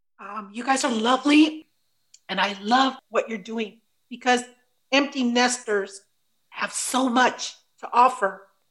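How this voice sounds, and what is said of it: Choked-up, emotional voice. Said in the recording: “I got a little choked up. ... You brought tears to my eyes”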